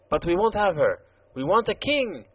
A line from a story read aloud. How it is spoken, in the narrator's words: exclaimed the Jacques Rose